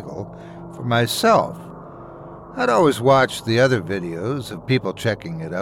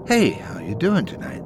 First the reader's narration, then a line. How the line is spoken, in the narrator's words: Her voice was like velvet, silky and smooth